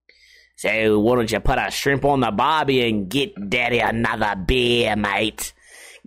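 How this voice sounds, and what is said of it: Put-on Australian accent. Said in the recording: “the bartender is from Australia ... your little accent”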